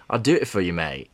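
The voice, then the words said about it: Put-on English London accent. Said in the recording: “if this guy has an English accent ... I sound like I'm from London.”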